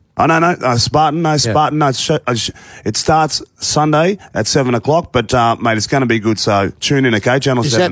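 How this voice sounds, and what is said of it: Husky voice. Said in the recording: “I've done a lot of voiceovers, and that's why my voice is a bit husky.”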